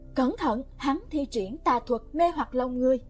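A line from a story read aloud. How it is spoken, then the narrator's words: Alarmed loud shout. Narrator (Vietnamese): Hoắc Bình Xuyên biến sắc mặt hét lớn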